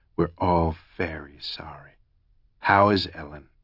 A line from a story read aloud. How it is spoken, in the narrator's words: he purred